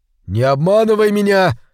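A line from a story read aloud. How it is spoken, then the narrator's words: Shouted. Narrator (Russian): закричал он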